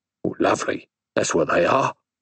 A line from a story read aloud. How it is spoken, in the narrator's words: said the man, hoarsely